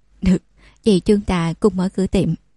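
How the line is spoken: Bursting laughter. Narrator (Vietnamese): Giả Minh Nguyệt cười phá lên

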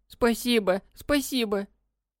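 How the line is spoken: Girl squeaking through tears. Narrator (Russian): Пропищала девчонка сквозь слезы

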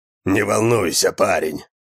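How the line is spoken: Witcher's hoarse rasp. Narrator (Russian): прохрипел ведьмак

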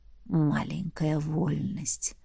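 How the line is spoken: Whispered. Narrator (Russian): прошептал дракон

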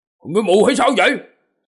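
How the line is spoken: Angry man shouting. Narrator (Vietnamese): Tráng hán kia trừng to mắt, hét lên

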